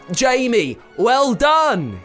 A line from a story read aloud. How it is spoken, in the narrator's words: shouted